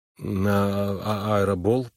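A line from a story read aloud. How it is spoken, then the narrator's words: Mumbled. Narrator (Russian): промямлил он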